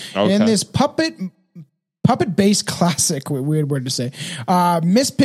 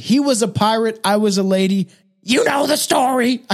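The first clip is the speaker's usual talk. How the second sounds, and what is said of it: Bold, feisty Miss Piggy impression. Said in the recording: “with a bold, feisty ... I can't do her voice, but that's kind of close.”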